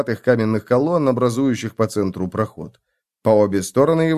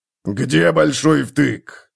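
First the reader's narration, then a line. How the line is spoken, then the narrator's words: Barked. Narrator (Russian): рявкнул он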